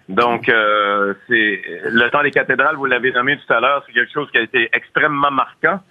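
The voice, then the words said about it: Very thick accent. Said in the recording (French): “vous avez un accent à couper au couteau”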